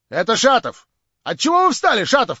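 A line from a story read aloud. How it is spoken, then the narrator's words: Shouted. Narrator (Russian): крикнула хозяйка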